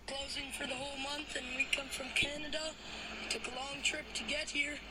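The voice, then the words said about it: Canadian accent. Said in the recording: “sounds so Canadian. Yo, he sounds so Canadian.”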